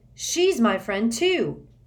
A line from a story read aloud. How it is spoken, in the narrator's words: Harry yelled